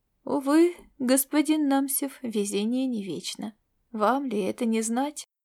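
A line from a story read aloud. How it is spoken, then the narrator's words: Soft, gentle voice. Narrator (Russian): мягко проговорил Мнемос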